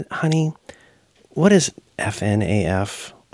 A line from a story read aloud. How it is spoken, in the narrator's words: I asked kind of quietly because I didn't know if it meant like, you know, right